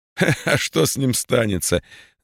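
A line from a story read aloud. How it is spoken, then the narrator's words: Laughing. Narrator (Russian): засмеялся Абрютин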